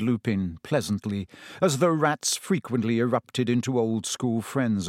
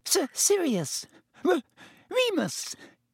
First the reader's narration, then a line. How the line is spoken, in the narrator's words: Even Pettigrew's voice was squeaky